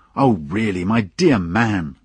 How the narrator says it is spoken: I said crossly

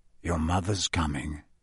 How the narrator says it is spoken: he said quietly

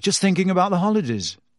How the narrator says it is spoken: said Harry quickly

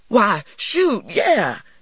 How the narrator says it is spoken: he exclaimed

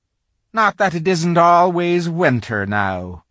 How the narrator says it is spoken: he added gloomily

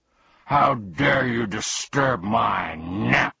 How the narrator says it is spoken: he bellowed furiously

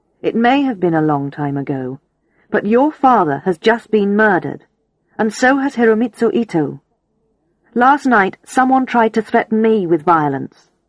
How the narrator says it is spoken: I said firmly

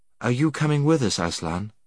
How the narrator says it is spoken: said Jill

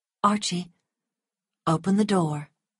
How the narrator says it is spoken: Melanie said quietly and calmly

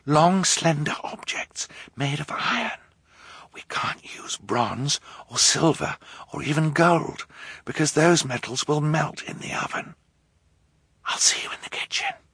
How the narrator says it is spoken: Violet whispered

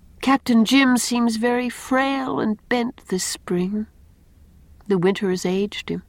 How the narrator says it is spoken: said Anne sadly

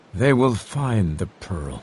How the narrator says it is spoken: he said quietly

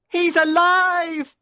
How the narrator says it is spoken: He screamed

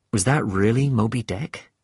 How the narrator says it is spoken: I asked Queequeg

